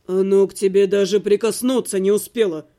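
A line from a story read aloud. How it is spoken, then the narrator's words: Grumble. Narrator (Russian): буркнул Берган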